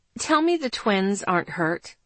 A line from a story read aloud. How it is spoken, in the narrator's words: I asked